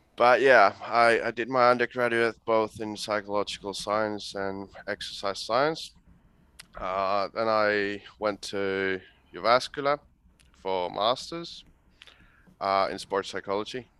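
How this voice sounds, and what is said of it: Finnish accent mixed with Australian. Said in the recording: “you sound like you're combining Finnish with Australian ... weird accent combining Aussie slang and Finnish rally English”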